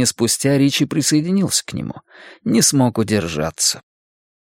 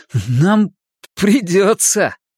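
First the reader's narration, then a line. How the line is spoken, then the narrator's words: Maniacal laughter. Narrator (Russian): захохотал, как безумный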